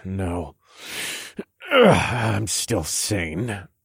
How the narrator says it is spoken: grunted as I struggled to sit up

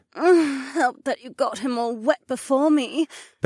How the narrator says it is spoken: Becca whined

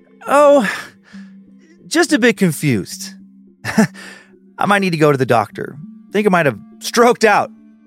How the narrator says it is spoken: he added with a forced laugh

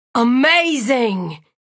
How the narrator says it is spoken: Marshall exclaimed

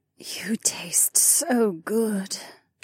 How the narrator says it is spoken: Kat whispered

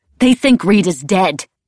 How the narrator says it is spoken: I spat

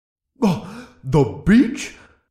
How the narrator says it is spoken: Boongal gasped

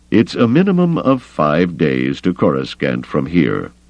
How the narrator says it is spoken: Thrawn said coldly

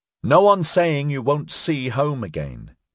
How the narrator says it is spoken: Bella said, raising her voice above the tide of dissent

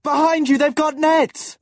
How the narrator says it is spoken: Will cried, because the riders were almost on them

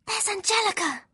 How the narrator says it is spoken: Lyra whispered

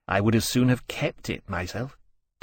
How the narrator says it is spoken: Temeraire muttered

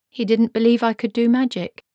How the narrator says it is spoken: she said calmly

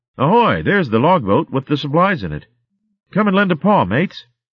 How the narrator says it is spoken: she called out happily

